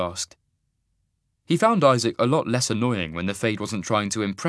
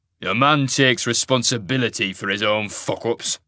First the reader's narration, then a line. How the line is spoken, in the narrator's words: the wolf growled